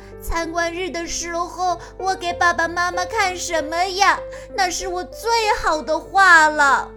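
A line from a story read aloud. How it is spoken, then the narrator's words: Crying. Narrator (Chinese): 安博哭着说道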